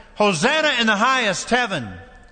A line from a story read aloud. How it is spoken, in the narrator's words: some shouted